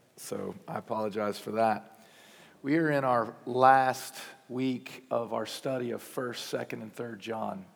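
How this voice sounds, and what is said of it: Hoarse, sick-sounding voice. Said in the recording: “I apologize for my voice. I got sick this week... my voice went out the window... I sound terrible.”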